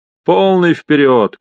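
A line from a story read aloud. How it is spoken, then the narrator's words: Shouted. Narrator (Russian): крикнул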